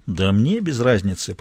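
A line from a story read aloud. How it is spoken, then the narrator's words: Grumbling. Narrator (Russian): проворчал Мазур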